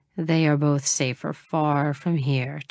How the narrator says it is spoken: Chase sighed

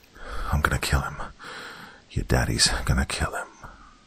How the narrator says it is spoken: Malcolm whispered to his daughter through clenched teeth

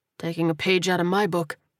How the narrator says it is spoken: he muttered

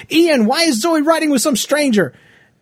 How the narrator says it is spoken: I hollered at him

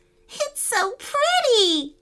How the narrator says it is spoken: giggled Rain Kitty

